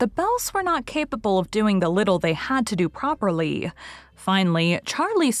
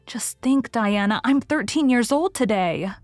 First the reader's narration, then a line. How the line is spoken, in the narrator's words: remarked Anne in an awed voice